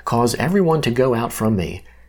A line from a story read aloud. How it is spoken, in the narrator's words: Joseph couldn't control himself, he called out